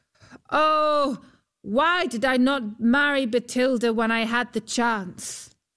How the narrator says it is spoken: Huldbrand called out

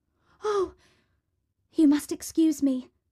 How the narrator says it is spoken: exclaimed Cinderella

